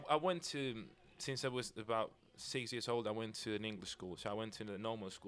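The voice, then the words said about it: Spanish speaker with near-British accent. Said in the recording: “being from Spain and having like a British accent almost.”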